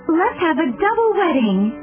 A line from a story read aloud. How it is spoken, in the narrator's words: Portia exclaimed